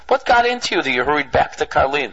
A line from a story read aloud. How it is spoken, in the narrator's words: Rav Aaron the Great then immediately greeted his chosid and laughingly asked him